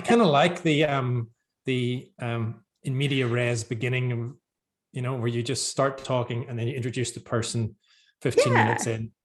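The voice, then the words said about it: Northern Irish Belfast accent. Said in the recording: “not many people with my accent in the literary world in Australia ... I'm from Belfast originally in Ireland”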